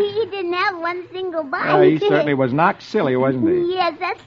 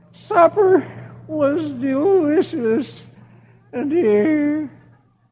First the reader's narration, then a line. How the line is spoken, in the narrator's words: Dagwood groans